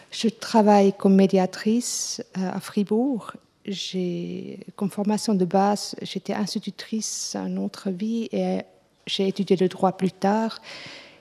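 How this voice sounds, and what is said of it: Swiss German accent in French. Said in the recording (French): “Vous entendez mon accent. Je suis suisse allemande.”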